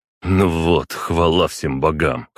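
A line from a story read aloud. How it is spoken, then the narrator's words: Snorting remark. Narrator (Russian): хмыкнул он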